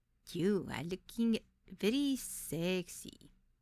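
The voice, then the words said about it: Thick foreign accent. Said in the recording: “in a thick accent.”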